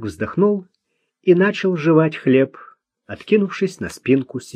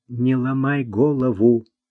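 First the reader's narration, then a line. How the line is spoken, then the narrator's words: Whisper. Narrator (Russian): шепнул ему Луи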